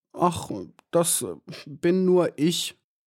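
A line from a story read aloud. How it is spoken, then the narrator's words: Stammering. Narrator (German): stammelte Maya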